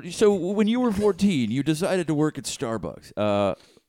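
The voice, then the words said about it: Imitates another person's voice. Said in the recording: “The worst Charlie Rose impression ever. ... It's good.”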